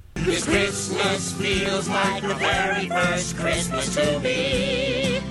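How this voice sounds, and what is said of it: High-pitched falsetto singing. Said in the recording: “high-pitched ... I've got a mean falsetto”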